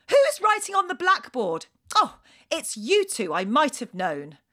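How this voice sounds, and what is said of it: Stern shouted voice. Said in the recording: “in my sternest voice shouted”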